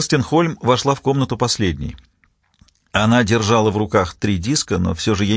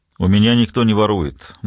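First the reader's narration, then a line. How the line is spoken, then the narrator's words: Gloomy reply. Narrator (Russian): мрачно ответил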